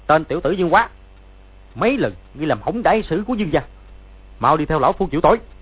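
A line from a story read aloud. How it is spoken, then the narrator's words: Shouting. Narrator (Vietnamese): Bèn xông ra quát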